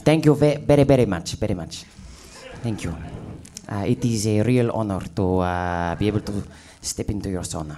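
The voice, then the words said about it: Speaks with a put-on accent. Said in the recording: “I'm looking forward to listening to your accent for the next 50 minutes.”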